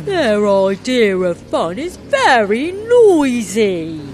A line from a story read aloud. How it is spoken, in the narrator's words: complained, putting his finger in his ears as the roar of engines grew louder